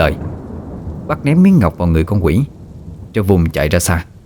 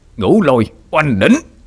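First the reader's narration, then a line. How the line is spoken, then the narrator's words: Loud roar. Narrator (Vietnamese): Bác gầm lớn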